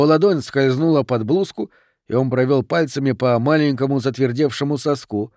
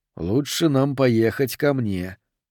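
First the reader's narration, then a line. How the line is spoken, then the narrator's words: Whisper. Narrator (Russian): прошептал он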